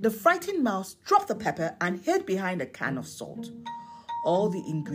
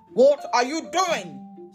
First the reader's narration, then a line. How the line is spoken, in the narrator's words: Scotch Bonnet Pepper yelled